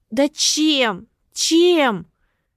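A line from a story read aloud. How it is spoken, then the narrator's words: Shout. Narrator (Russian): На этот вопрос он ответа не приготовил, поэтому крикнул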